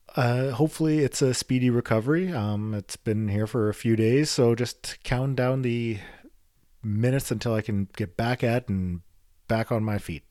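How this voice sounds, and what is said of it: Voice sounds different from illness. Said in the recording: “As you can tell, my voice sounds a little different today. The COVID is in the house”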